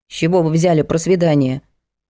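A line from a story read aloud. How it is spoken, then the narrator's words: Grumbling. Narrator (Russian): буркнула Надежда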